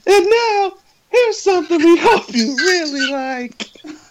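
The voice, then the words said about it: Cartoon Rocky the Flying Squirrel voice. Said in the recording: “read all of these porn titles as Rocky the Flying Squirrel”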